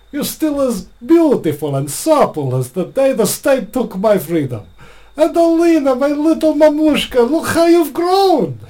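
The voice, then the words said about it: Good put-on Russian accent. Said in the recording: “Very good Russian accent there. Very impressed.”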